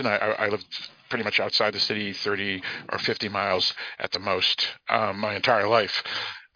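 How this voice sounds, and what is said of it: Thick Boston accent. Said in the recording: “I have a very thick Boston accent”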